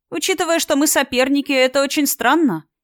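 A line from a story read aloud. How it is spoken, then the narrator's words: Giggle. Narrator (Russian): хихикнула подруга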